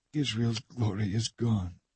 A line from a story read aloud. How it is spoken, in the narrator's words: murmuring